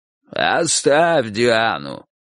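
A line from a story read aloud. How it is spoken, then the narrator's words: Hoarse croak. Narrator (Russian): прохрипел сторож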